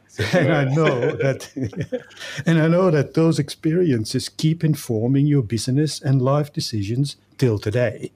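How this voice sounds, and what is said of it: Polished radio-presenter voice. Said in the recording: “your beautiful radio voice”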